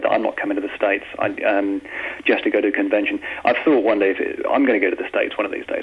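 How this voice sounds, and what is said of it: English accent. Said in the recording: “somebody with a decent accent on your show ... I love your accent. Fantastic.”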